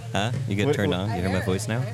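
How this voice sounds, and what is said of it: Put-on radio announcer voice. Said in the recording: “his radio voice ... I'm a very microphone friendly.”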